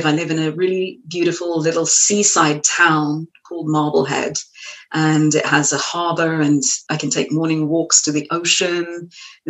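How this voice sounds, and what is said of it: Strong non-American accent. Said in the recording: “one of these people who doesn't lose their accent ... Got a beautiful accent.”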